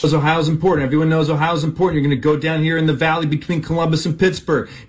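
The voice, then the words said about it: Impression of TV electoral map analyst. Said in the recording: “his impression of anybody working one of those electoral college maps”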